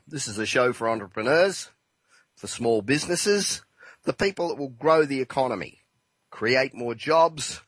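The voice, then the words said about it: Rough, unwell-sounding voice. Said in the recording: “apologize for my voice a bit, but um, I've had a dose of the flu, which I'm just starting to get over”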